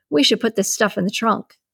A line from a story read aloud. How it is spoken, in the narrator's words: he said